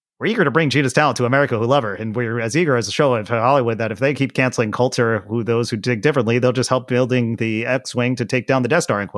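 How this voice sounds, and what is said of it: Fast-talking imitation of another person. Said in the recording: “He speaks really fast. That's my Ben Shapiro impression.”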